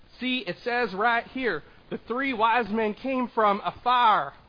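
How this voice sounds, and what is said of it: Southern accent like Mary Cooper. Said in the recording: “what accent is he doing? Maybe like Mary Cooper or, you know, Sheldon's mom from Big Bang Theory or young Sheldon”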